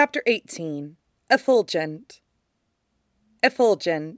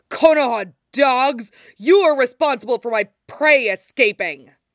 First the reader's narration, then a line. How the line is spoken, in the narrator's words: the man snarls